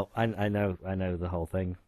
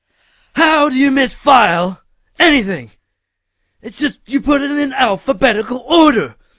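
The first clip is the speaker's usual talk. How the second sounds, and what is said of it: Imitates another person's voice. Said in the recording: “your best Nick Cage impression”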